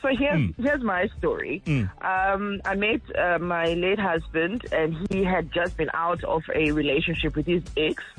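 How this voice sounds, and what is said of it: Groggy, slightly hoarse voice. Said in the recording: “Just a little bit flu-ish, so my voice sounds a little bit groggy. I didn't swallow a frog. It's just that the flu is starting its way onto me.”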